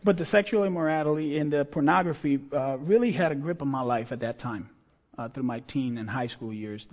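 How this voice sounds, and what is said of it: Puerto Rican accented English. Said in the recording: “that's the Puerto Rican part, the accent doesn't let me say that word”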